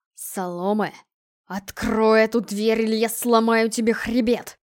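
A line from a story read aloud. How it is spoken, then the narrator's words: Growled. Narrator (Russian): прорычал девятый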